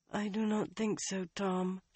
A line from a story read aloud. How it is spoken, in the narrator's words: she mumbled